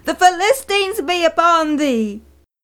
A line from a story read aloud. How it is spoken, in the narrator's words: screamed